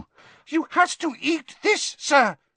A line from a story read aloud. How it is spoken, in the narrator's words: squeaked the elf